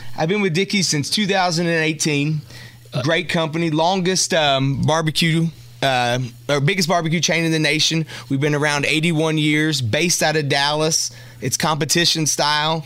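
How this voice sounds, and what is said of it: Southern American accent. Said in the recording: “that accent, that tells me that you're probably not from New York ... somebody with a southern accent”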